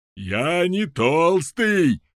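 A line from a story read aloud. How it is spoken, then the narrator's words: Yell. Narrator (Russian): заорал Галопас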